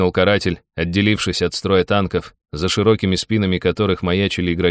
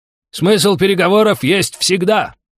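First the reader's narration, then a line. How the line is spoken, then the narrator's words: Grandiose shout. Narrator (Russian): пафосно выкрикнул стоявший рядом с карателем Прайм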